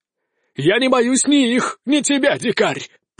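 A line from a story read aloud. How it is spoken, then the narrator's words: Grandiose exclamation. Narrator (Russian): пафосно воскликнул испанец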